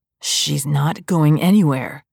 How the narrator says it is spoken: Kent growls

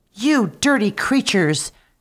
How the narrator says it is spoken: cried she

